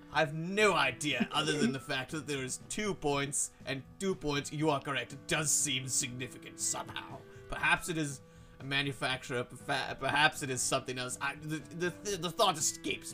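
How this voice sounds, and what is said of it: Character voice with an accent. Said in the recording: “I forgot that was his accent.”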